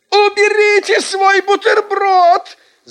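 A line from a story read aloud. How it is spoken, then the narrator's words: Shouting teacher. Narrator (Russian): закричала наша учительница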